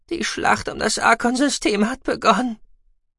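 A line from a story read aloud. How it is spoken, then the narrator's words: Husky, choked voice. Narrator (German): sagte Gucki mit belegter Stimme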